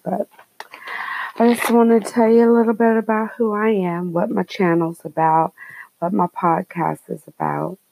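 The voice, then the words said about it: Whispering into the microphone. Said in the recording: “probably very loud, even though I'm whispering”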